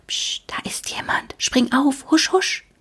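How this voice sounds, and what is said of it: Whispering. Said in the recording (German): “flüstern”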